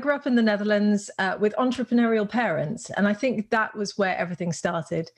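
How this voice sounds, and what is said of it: British-sounding accent. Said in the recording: “sound British”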